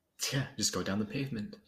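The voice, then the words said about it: Put-on English accent. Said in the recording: “With an English accent.”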